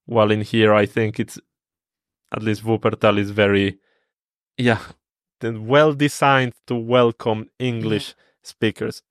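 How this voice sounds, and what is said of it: Spanish-accented English. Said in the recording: “they notice in my accent that I speak Spanish”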